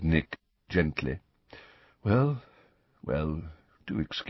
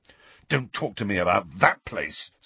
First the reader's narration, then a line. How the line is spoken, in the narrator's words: said Harry fiercely